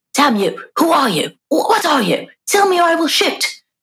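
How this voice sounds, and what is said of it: Poor put-on English accent. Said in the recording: “This is my very bad English accent”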